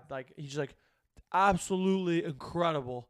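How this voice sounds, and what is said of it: Imitates another person's voice. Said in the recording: “my Draymond Green impersonation. It's not very good”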